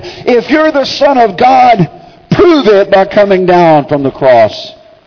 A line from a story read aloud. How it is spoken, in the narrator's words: another shouted